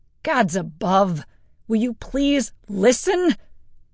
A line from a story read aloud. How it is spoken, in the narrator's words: Alistair snapped